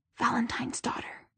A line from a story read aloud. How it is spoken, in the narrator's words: the whispered words